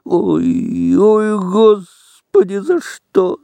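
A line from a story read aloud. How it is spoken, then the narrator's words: Moaning. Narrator (Russian): стонали Федька и Коська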